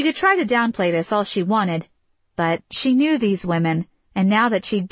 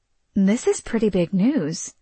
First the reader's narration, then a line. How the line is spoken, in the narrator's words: Autumn murmur to Kate